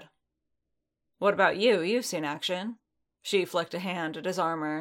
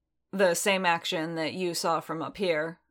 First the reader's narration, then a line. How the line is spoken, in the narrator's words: Din said dryly